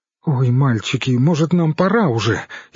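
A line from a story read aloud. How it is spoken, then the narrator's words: Frightened mutter. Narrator (Russian): испуганно пробормотала Ирон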